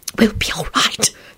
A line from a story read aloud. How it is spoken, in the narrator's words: she whispered to Solange in a shaking voice